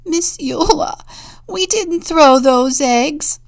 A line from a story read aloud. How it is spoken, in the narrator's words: I sobbed